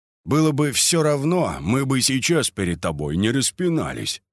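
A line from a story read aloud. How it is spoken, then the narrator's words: Plain. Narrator (Russian): сказал Кольцов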